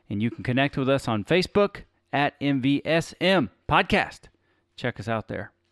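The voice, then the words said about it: Radio announcer voice. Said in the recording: “I did some of that with my radio voice ... Do you find my radio voice super sexy?”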